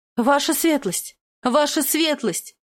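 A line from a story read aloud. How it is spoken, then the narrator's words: Yelling, coming closer. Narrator (Russian): вопила я по мере приближения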